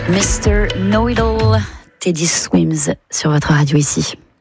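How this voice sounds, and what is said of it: Put-on London English accent, suave. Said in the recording (French): “mon accent ridicule ... il est magnifique ... Une voix suave ... Suis-je londonienne?”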